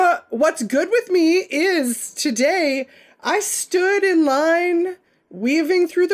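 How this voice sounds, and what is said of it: Usual voice. Nothing is said of it.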